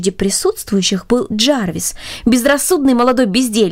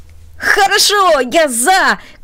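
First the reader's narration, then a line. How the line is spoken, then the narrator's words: Shout. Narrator (Russian): крикнул он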